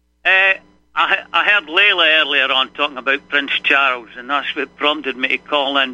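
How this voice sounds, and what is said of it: Speaks with a noticeable accent. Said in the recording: “I love to hear your accent there.”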